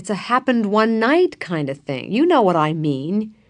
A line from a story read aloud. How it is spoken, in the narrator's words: said George impatiently